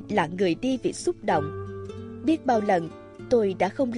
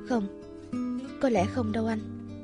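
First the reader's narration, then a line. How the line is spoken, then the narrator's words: Soft quiet reply. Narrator (Vietnamese): Tôi khẽ đáp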